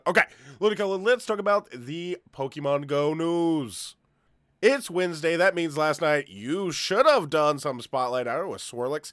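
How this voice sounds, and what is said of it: Stuffy, congested voice. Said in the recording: “I am a little under the weather today ... it's really easy to tell I'm a little stuffy today if you can't hear it in my voice.”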